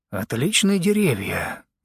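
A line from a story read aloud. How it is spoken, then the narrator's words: Muttering to himself. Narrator (Russian): бормотал себе под нос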